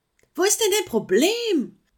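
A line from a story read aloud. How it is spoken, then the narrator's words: Calling upward. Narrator (German): rief sie daher nach oben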